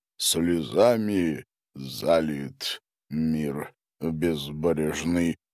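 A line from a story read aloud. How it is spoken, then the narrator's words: Muttered. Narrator (Russian): пробормотал Гарин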